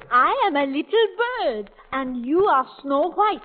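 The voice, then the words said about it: Put-on French accent. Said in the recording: “a bird with a French accent”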